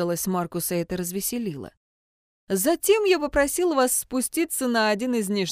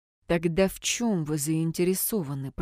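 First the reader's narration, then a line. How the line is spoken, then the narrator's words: Through gritted teeth. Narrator (Russian): процедила Кайтон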